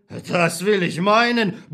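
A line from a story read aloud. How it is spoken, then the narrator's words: Grumbling. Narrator (German): brummte Scharfzahn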